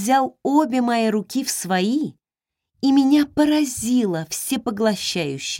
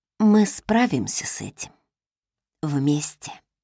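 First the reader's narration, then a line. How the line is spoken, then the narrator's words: Whisper. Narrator (Russian): прошептала я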